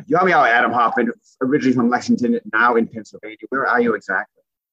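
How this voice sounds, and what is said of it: Maine accent. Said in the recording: “an amazing Maine accent”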